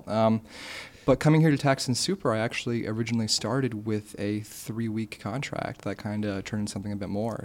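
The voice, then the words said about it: American accent. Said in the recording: “having an American accent”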